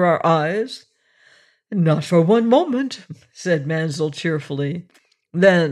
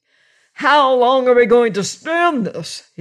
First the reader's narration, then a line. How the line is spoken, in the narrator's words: He cried